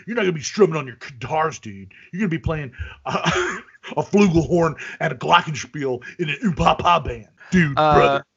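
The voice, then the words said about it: Hulk Hogan impression. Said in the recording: “your Hulk Hogan impression.”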